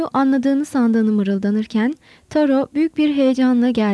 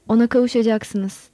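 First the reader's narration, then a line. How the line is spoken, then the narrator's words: Plain. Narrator (Turkish): dedi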